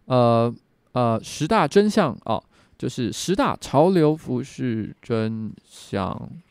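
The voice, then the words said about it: Slowing, fading, breathless-sounding narration. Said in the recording (Chinese): “一定会越讲越慢，而且越到后面，他声音会越来越小，就好像断气一样 ... 越讲就会越慢，然后越小声”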